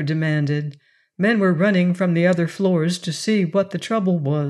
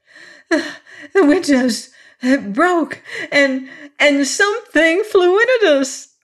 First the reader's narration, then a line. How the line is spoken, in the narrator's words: gasped